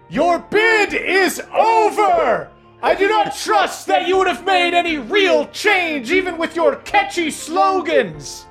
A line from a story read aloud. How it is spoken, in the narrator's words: you hear this dragon shouting